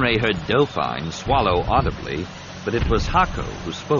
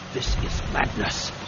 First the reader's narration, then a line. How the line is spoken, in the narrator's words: he said, lowering his voice